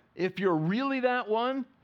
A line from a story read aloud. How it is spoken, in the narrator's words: he says, and he's mocking him